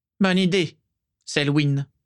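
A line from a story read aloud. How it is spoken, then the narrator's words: Curt reply. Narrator (French): répondit sèchement Voldemort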